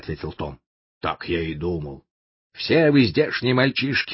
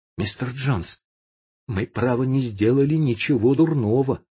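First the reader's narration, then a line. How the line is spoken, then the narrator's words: Timid. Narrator (Russian): сказал он робко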